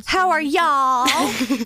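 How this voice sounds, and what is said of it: Put-on country accent. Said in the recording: “That one with the country accent?”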